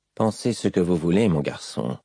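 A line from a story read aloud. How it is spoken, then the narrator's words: Murmured. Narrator (French): lui murmura-t-il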